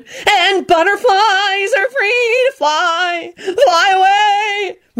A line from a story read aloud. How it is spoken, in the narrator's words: she shouted